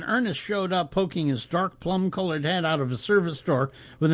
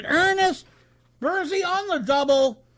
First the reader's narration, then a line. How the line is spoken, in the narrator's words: Mandela could stand, and gasped, stuttered, dinged his bell, and shouted